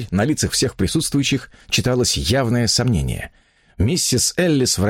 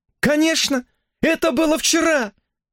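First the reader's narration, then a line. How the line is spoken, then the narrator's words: Exclaimed. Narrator (Russian): воскликнула она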